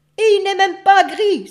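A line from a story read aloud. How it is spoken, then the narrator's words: Exclaimed. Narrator (French): s'écria père loup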